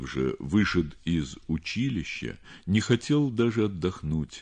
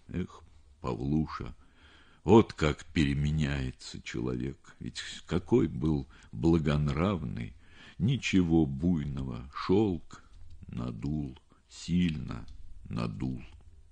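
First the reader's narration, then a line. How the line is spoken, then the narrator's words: Weak voice, heavy sigh. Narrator (Russian): произнес он слабым голосом, тяжело вздохнул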